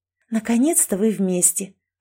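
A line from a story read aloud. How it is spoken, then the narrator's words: Whisper. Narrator (Russian): прошептала Кэти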